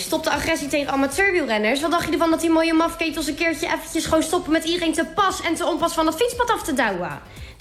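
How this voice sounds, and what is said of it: Comic character with strong Rotterdam accent. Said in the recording (Dutch): “als Tante Toof ... met een heerlijk Rotterdams accent”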